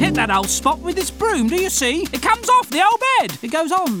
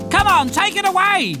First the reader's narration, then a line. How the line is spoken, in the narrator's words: yelled Little Cat A